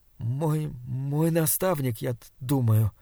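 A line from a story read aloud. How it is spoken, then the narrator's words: Stammering. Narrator (Russian): запинаясь, ответил Саймон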